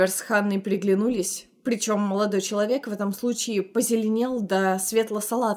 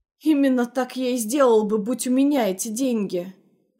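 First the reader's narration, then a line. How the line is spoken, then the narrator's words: Groan. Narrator (Russian): простонал Оливер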